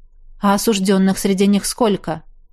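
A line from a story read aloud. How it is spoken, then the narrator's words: Snorting. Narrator (Russian): Ашияр хмыкнул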